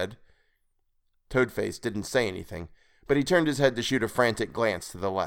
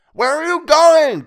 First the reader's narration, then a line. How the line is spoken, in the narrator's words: Toadface screamed